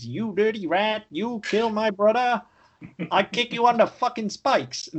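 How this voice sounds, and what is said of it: Imitates another person's voice, badly. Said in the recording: “That was an awful, fucking awful impersonation. ... That was fucking terrible.”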